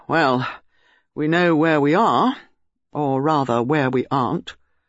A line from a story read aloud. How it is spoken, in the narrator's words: Melchett said gloomily